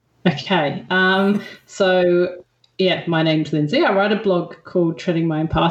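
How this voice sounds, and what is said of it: Hybrid English-Australian accent. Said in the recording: “people might be able to tell by your accent, you're joining us all the way from Australia... everyone in England thinks I sound Australian, and everyone in Australia thinks I sound English... hybrid accent”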